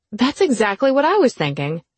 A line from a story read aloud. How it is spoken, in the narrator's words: she exclaimed